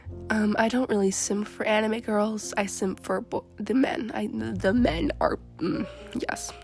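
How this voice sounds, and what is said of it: Congested, rough voice from cold. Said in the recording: “I have a little bit of a cold at the time of the recording, so hope my voice doesn't sound like it's drowning in cheese graters”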